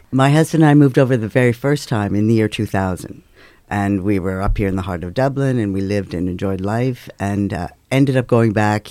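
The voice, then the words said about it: American accent. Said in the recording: “The accent will give it away pretty quickly that you are from the US of A”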